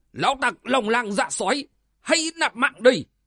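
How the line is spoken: Thunderous shout. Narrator (Vietnamese): một tiếng quát như là sấm rền vang lên

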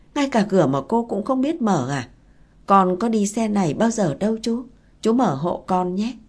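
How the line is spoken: Sighing question. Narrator (Vietnamese): Chú thở dài hỏi

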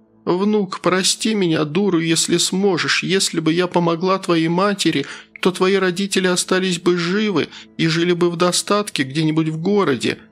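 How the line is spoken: Sobbing woman. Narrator (Russian): между всхлипами проговорила она

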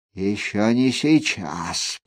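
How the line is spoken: Grumbling. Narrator (Russian): проворчал он

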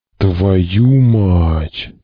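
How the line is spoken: Strained forced-out curse. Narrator (Russian): только и сумел выдавить Потагиныч

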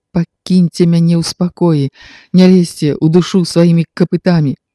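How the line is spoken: Hysterical voice. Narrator (Belarusian): істэрычным голасам

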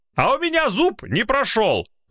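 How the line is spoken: Angry shout. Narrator (Russian): зло выкрикнул красномордый мужчина с флюсом

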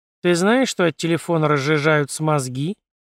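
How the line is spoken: Grumbling. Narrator (Russian): проворчала Виноградова

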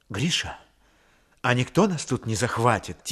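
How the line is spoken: Quiet question. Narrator (Russian): тихо спросила она

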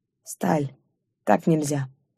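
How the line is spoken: Hoarse undertone. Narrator (Russian): проговорил, хрипло, вполголоса

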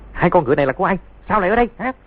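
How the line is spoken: Shout. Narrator (Vietnamese): tiếng quát

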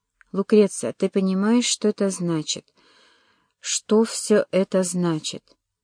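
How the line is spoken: Quiet question. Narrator (Russian): тихо спросила

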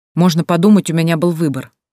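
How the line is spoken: Uneasy snapping retort. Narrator (Russian): огрызнулся Нейт, которому тоже было ужасно неуютно

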